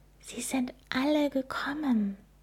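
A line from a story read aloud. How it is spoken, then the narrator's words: Amazed whisper. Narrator (German): Sie flüsterte staunend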